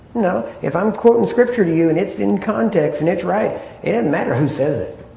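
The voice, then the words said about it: Accent with a twang. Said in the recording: “my accent or the twang of my voice”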